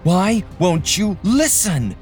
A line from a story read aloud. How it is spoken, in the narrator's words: Mabel shouted